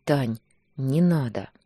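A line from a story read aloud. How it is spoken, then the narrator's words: Tired, sad plea. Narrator (Russian): Попросил устало, грустно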